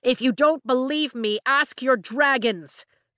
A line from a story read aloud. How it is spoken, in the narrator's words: Dane shouts